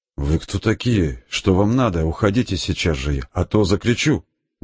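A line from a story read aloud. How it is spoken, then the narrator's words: Woman's trembling question. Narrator (Russian): женщина открыла глаза и дрожащим голосом спросила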